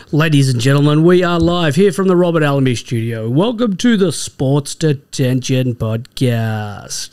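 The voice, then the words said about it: Exaggerated announcer radio voice. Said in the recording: “How's my radio voice? ... You leant right into it. You got those big draw in your voice”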